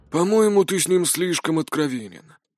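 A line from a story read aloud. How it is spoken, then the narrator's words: Grumbling. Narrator (Russian): проворчал Мор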